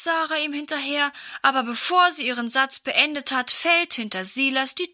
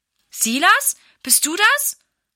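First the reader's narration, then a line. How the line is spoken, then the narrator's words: Mother calling. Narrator (German): ruft Mama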